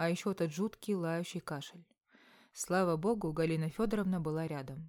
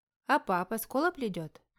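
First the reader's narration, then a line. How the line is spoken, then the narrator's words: Cheerful question. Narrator (Russian): бодро спрашивает Нюся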